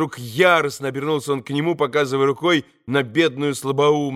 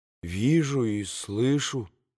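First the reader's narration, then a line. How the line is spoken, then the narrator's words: Mumbling. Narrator (Russian): пробормотал Алеша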